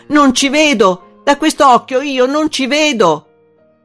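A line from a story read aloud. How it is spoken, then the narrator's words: Anguished shout. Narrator (Italian): preso dall'angoscia, gridò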